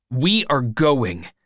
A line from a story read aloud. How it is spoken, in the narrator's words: said angrily